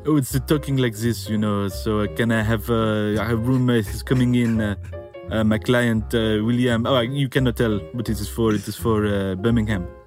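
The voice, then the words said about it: Terrible fake French accent. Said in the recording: “pretended to be a French sports agent with a kind of terrible French accent”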